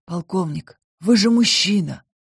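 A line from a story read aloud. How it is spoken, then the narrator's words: Hoarse. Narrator (Russian): хрипло произнес Энрике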